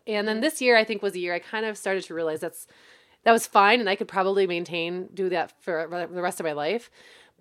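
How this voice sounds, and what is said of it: Hoarse, worn-out voice. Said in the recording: “my voice is just so shot”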